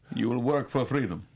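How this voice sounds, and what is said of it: Poor imitation of Russian accent. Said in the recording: “Russian. ... That's not Russian. ... That's bad.”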